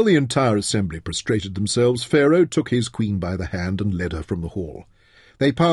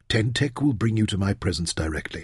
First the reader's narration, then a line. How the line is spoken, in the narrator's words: he replied softly